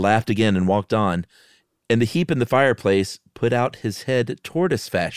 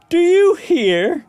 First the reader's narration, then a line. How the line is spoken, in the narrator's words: cried